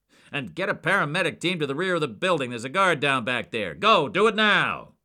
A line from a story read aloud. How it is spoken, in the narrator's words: Jack bellowed